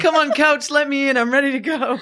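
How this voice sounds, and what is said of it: Imitates another person's voice. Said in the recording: “impersonations,”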